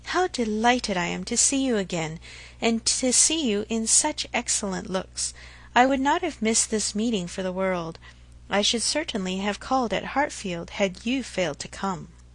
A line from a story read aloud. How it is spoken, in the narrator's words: replied Emma, and she spoke so kindly